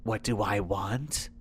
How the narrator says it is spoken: she whispered

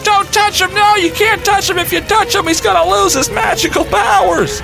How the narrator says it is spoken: my nephew starts screaming at me

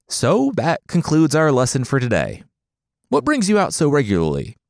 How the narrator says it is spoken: he chuckled

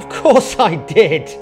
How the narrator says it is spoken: he laughed

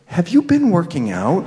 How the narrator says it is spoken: said in a half whisper

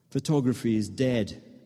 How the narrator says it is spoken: Ben says with a cough laugh

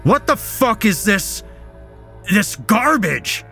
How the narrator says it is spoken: his stepfather shouted

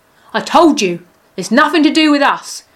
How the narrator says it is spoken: shouted the leader

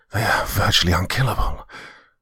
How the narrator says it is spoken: growled Rufus as he fought his way to my side

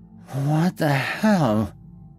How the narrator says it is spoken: she stammered

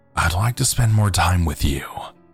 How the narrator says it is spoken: she said softly

